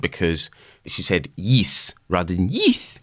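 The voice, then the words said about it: Bad put-on South African accent. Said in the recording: “my incredibly bad attempt to do a South African accent”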